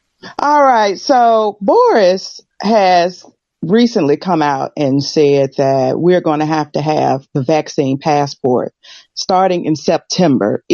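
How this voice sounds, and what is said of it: American accent. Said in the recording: “I know the accent. I'm American ... I haven't lost the accent”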